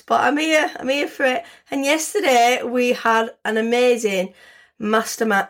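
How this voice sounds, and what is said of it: Hoarse voice. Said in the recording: “I might sound a little hoarse today. I've had a little bit of a bad chest this week... I've got a little bit of a chest infection. Obviously, I've got my asthma, so I'm a little bit hoarse.”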